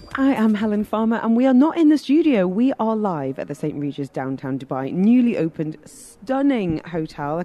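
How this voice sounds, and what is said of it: Northeast English accent. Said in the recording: “my northeast accent coming out a little bit more”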